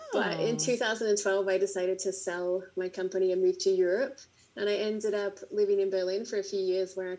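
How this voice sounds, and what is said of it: Australian accent. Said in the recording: “I'm Australian, as you can probably tell by my accent.”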